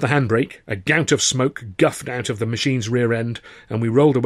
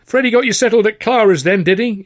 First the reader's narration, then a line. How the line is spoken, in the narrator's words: he shouted